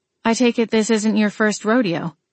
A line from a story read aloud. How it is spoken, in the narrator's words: I noted dryly